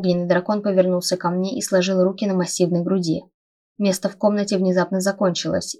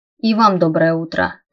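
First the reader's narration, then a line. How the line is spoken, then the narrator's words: Wary grumble. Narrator (Russian): проворчала я, настороженно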